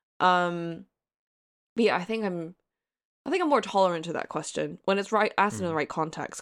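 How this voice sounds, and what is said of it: American-sounding English accent. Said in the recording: “you have this like American accent.”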